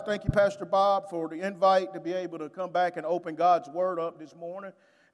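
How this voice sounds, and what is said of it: Southern Alabama country accent. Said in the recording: “I'm from the Birmingham, Alabama, and so that's where the country accent comes from ... that's one country brother right there”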